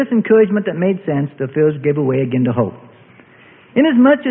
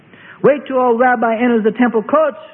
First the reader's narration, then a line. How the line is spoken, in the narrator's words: shouts a woman in defense of her hero